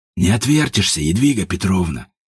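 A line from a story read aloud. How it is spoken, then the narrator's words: Hot eager whisper. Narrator (Russian): жарко зашептал Ажуров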